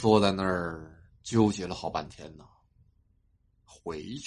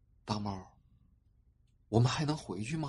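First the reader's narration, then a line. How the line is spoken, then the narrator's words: Soft voice. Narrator (Chinese): 他轻声的对我说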